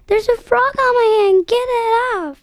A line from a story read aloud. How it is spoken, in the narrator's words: She screamed